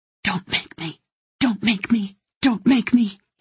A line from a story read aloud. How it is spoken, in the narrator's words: pleaded in a whisper